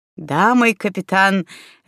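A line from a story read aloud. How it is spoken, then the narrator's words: Laughing. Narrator (Russian): рассмеялся Савелий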